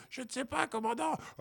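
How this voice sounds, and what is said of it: Thin, high little voice. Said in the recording (French): “avec sa petite voix fluette”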